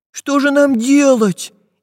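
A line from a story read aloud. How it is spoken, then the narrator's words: Frightened question. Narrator (Russian): испуганно спросил Прутик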